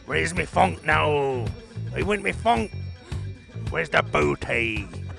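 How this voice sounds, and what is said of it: Pirate impression voice. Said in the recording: “your best pirate impression”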